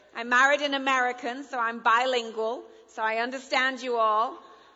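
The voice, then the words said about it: English accent. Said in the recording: “blonde chick with a funny voice ... I speak English ... I'm now an American citizen and an English citizen”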